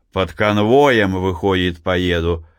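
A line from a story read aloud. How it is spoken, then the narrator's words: Good-natured laughing. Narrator (Russian): засмеялся верховой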